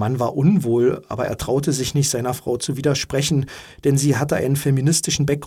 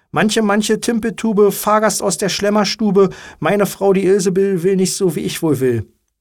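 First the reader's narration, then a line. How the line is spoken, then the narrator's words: Calling out. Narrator (German): rief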